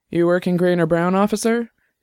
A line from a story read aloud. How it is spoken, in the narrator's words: the captain asked